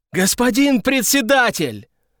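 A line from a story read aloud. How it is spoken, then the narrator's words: Yelled with all might. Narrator (Russian): Заорал что было сил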